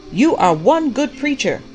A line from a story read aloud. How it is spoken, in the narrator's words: the prophet shouted back